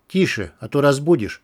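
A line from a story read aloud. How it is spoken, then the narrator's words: Whisper. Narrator (Russian): зашептал программист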